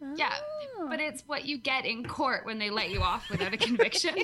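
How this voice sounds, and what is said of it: Usual voice. Nothing is said of it.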